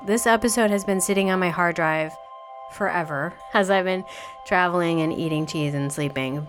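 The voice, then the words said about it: Voice sounds off from cold. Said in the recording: “I sound weird, ... it's because I am getting over a cold”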